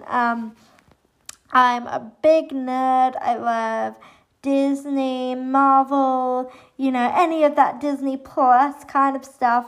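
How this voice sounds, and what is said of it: Somewhat muddled English accent. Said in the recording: “I'm originally from England, hence the accent. It's a bit of a muddled accent.”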